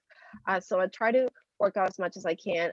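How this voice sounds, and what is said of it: Voice slightly off, sick-sounding. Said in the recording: “I've been sick for three days ... she sounds weird ... my voice is a little bit off”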